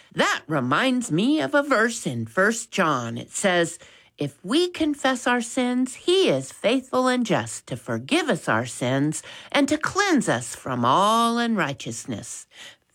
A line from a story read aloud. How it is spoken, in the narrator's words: Max, pleased he wasn't the one in trouble, piped up and said